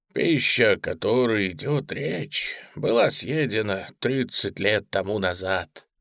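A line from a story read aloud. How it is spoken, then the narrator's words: Calm remark. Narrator (Russian): спокойно заметил адъютант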